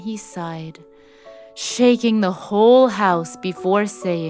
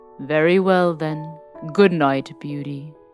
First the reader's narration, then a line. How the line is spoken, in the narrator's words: in a sorrowful tone